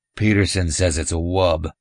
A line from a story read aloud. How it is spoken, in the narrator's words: Jones said